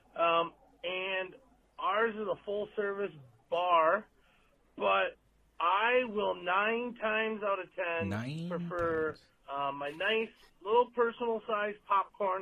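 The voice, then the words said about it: Midwestern American accent. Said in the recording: “That is that Midwestern accent”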